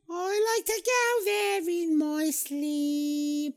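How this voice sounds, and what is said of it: Sung line in put-on accent. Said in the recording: “you do a really good accent.”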